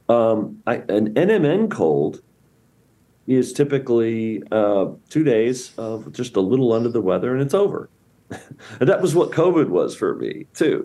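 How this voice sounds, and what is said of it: Slightly scratchy voice. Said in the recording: “I had a little cold this week, by the way, which my voice is just a little bit scratchy.”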